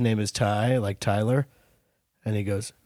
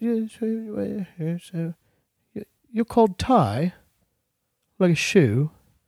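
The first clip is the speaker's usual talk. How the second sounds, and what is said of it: Put-on British accent. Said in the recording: “my new impression? ... It's a British guy meeting a person named Ty.”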